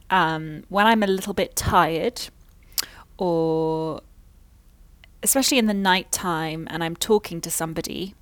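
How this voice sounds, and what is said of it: British received pronunciation accent. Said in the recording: “I have actively controlled my speech to maintain a British received pronunciation accent.”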